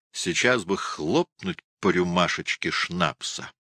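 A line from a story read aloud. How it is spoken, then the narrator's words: Plain. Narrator (Russian): сказал Штуки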